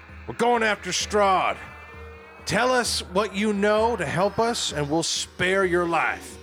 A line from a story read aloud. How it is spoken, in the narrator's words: Wendell's going to yell at her and say